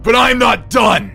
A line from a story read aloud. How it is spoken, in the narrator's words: screamed